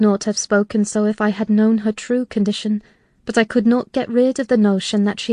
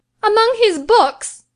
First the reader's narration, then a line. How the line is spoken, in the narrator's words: she cried, confounded